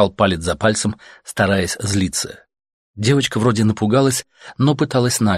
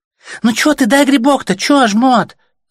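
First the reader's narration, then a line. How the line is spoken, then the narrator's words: Girl's squeal. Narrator (Russian): запищала девчонка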